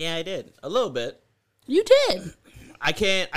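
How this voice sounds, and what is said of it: Usual voice. Nothing is said of it.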